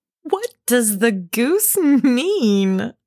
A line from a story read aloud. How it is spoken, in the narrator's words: said Meg, laughing and trying to look unconscious